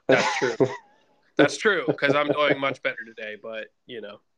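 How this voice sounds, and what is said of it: Congested, stuffy-nosed voice. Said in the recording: “I got a stuffy nose ... I've been a little under the weather ... I'm a little stuffy. So if I sound like an elephant too, because I got to blow my nose”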